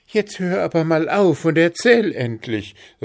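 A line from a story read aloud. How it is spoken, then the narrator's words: Call. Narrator (German): rief Zwitschi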